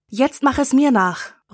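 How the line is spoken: Calling out. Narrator (German): ruft Maggie

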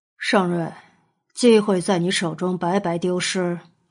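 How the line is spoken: Lowered voice. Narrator (Chinese): 他压低声音道

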